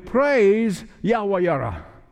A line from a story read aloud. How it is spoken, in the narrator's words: yell with me